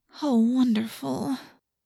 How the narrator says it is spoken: Cassie moaned

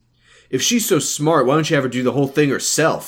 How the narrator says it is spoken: Nate snapped

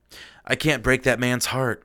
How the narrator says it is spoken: Jetty sighed

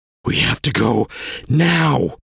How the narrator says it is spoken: Vel gasped between breaths

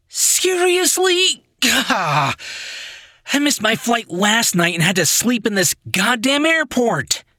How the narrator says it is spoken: he whined

